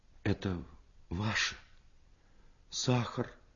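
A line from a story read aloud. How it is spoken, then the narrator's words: Quiet, holding back tears. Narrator (Russian): Тихо сказала она и отвернулась, чтобы скрыть слезы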